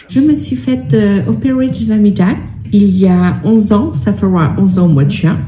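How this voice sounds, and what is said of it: French speaker with English-sounding accent. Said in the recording (French): “je parlais avec un accent. Et cet accent qu'on qualifie d'anglais ... vous parlez comme elle avec un accent anglais”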